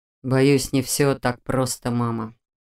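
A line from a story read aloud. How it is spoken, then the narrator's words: Sighing. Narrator (Russian): вздохнул Раал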